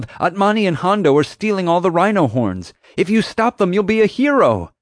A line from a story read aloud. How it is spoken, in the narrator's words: yelled